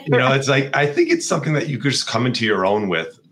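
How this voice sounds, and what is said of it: Hoarse, strained voice. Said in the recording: “losing my voice here”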